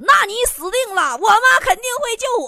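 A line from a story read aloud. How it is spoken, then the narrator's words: Loud, laughing. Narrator (Chinese): 老王哈哈大笑，……大声说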